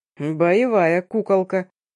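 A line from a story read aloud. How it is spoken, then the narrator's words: Chuckling stranger, mangled words. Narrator (Russian): коверкая слова, хохотнул незнакомец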